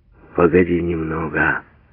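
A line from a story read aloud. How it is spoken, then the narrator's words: Reproachful mutter. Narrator (Russian): пробормотал укоризненно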